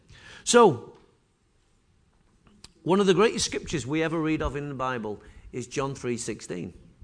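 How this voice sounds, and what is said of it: Congested voice from a cold. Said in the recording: “If my voice sounds bad this morning, it's because I'm full of a cold.”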